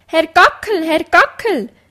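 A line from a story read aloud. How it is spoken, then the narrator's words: Clucking, hurried hen's call. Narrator (German): rief gackernd eine schnell herbeirennende Henne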